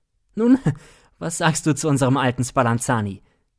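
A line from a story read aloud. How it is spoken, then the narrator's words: Laughing. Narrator (German): Siegmund lachend sprach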